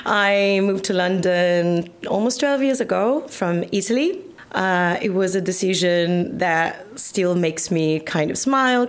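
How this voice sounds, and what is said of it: Non-London, non-Essex accent. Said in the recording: “you can tell your accent is not from Essex... And it's not from London, is it?”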